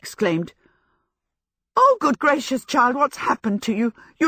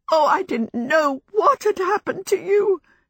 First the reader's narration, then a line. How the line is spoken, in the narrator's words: she sobbed